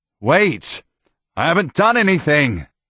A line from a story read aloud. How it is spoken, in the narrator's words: said, though he wasn't sure they could hear him through the shouts